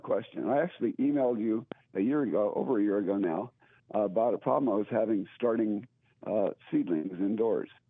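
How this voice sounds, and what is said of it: Hoarse, scratchy voice. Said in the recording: “you sound like you got a little hoarseness going on ... I've got a bit of a sore throat”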